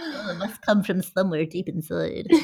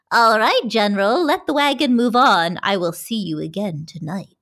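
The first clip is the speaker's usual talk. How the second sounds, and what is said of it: Disembodied female witch voice. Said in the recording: “a disembodied female voice ... You have a great witch voice.”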